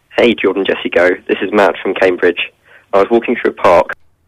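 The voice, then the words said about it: Noticeable accent. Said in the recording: “Lose the accent”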